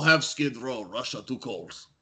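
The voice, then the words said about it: Put-on Russian accent. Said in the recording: “Didn't think I was going to get a Russian accent.”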